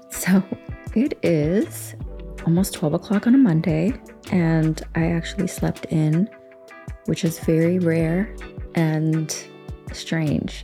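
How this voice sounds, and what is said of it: Voice not yet warmed up. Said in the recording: “As you can hear, my voice is not warmed up”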